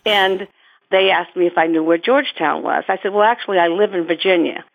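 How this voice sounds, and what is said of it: Boston accent. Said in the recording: “I have the Bostonian accent, as you can tell”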